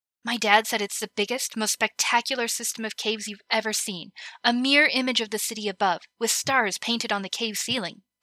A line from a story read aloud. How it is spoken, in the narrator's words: Connie said excitedly